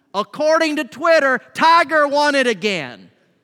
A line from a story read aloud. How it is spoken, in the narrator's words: somebody in the congregation yelled out